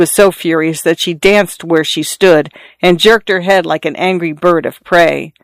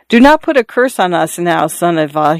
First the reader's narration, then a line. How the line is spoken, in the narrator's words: he said timidly